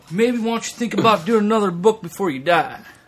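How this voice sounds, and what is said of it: Imitates another person's voice. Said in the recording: “it's a very good John Travis impersonation.”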